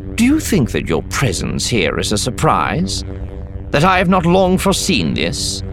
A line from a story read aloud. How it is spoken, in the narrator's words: Mulgus chuckled, the sound loud off the high ceiling